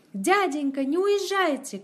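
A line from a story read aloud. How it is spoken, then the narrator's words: Shouting. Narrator (Russian): кричал он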